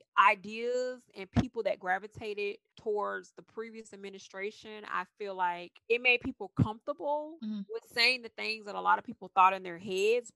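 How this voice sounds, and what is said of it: Southern US twang. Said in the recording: “I'm a Southern girl. If you guys don't know by my twang ... So I'm as Southern can get”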